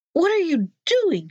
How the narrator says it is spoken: she cried

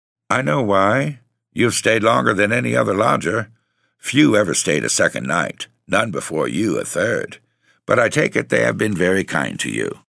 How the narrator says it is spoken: She said dryly

